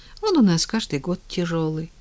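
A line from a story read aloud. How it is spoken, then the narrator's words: Sighing. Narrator (Russian): вздохнула Таня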